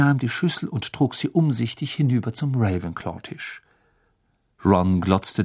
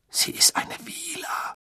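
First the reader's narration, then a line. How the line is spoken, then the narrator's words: Hoarse blurted out. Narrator (German): stieß er mit heiserer Stimme hervor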